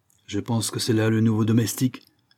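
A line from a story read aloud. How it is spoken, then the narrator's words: Host speaking curtly. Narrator (French): dit sèchement le maître de maison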